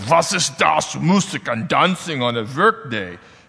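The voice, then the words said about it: Put-on German accent. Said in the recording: “we're going to give him a German accent”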